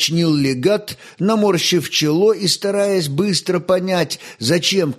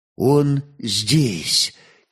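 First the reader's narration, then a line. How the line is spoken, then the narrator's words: Quiet speech. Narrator (Russian): тихо проговорил верный Отто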